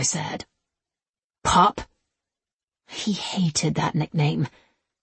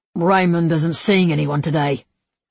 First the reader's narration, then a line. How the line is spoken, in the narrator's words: Jonas grunted